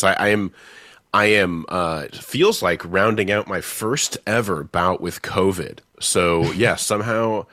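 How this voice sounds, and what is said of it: Low, deep radio-like voice. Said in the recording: “you're not feeling great, but you do have a really great low radio voice”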